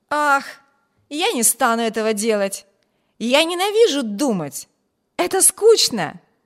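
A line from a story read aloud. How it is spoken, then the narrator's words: Cheerful exclamation. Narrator (Russian): весело воскликнул Виберт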